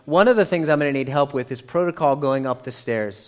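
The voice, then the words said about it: American accent. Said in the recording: “I am hopelessly American ... my accent”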